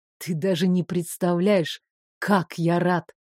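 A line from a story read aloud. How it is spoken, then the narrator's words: Unexpectedly quiet confession. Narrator (Russian): Неожиданно тихо признался Рейв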